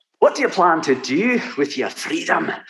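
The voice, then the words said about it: Thick Scottish Highlander accent. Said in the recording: “Your Highlander accent, spectacular ... that was just packed thick and rich and wonderful”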